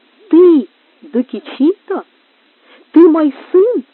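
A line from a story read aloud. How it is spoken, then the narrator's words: Exclaiming. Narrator (Russian): воскликнула она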